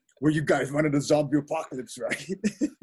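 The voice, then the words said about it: Imitates another person's voice. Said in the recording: “can't do his voice”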